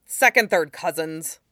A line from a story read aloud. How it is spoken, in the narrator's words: Lee said impatiently